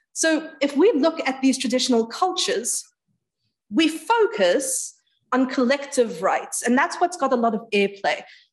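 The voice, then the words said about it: British-sounding accent. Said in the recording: “I know that I pull off the British accent superbly”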